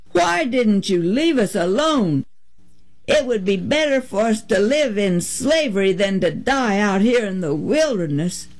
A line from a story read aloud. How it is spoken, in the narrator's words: they cried